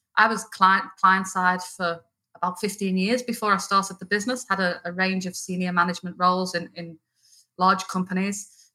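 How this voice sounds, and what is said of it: Liverpool English accent. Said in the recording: “you might tell by the accent, I'm not originally Australian ... I'm from Liverpool in the north of England ... the accent's obviously not going anywhere”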